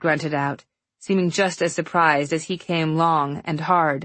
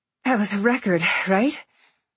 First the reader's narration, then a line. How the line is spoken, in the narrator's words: I gasped out